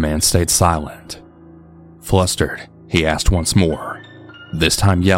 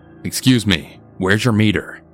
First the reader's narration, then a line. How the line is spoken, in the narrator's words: We were starting to get worried, and my dad then asked him in a really stern voice